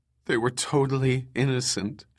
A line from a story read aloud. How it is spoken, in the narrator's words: she sobbed